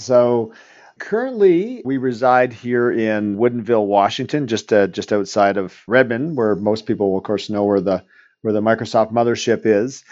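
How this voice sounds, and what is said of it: Canadian accent. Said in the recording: “you probably might tell eventually from my accents, I'm Canadian”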